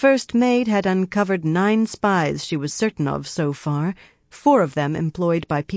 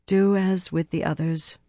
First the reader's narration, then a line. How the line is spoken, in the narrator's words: Elaine said sadly